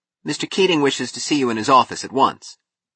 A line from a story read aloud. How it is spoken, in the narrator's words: a boy to say loudly